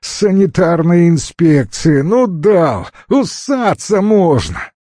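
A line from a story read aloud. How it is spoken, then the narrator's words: Hysterical laughter. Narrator (Russian): истерически захохотал и съемщик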